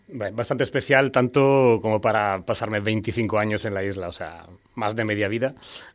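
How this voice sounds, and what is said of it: Spanish accent not from Fuerteventura. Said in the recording (Spanish): “por el acento de ... intuimos que no es majorero de nacimiento”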